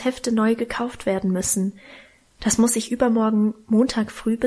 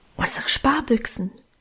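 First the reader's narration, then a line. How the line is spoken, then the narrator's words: Whispered. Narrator (German): flüsterte Alwine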